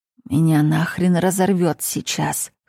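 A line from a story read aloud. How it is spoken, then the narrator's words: Hoarse rasp. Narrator (Russian): хриплю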